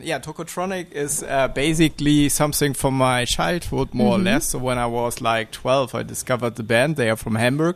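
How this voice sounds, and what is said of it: Strong German accent in English. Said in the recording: “My English shows a very strong German accent.”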